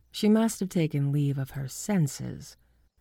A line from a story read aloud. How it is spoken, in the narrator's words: I said dryly